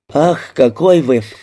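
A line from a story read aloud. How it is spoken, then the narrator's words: Sighing. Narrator (Russian): вздохнула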